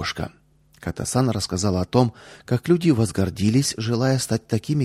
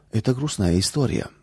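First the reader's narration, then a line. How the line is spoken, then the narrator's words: Sighing grandmother. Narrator (Russian): вздохнула бабушка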